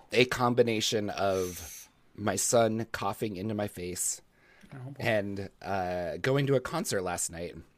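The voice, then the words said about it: Hoarse, smoky, failing voice. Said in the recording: “my voice is about to die. ... smoky voice”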